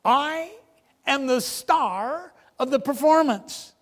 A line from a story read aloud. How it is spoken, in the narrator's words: instantly and haughtily said